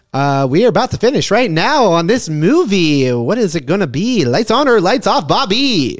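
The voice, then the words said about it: Radio DJ announcer voice. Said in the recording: “you sound like a radio DJ? ... Do that voice again like a radio DJ? ... Damn, that was pretty good.”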